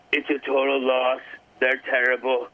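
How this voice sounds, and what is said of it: Imitates another person's voice. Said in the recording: “you're doing a Donald... doing a Donald Trump impersonation. That's pretty good.”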